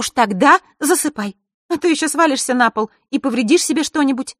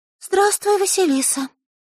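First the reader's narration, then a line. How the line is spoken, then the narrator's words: Timid young girl. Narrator (Russian): робко сказала девочка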